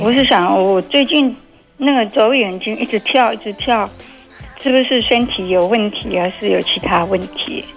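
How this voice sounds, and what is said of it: Taiwanese-accented Mandarin. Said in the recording (Chinese): “你是台湾人吗 ... 因为你有点口音 ... 我的口音人家都会问”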